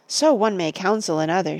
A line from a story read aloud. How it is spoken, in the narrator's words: she said